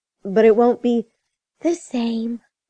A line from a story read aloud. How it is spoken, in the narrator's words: finished on a sigh